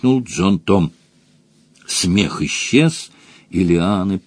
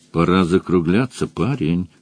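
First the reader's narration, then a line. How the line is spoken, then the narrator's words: Plain. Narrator (Russian): сказал Мадж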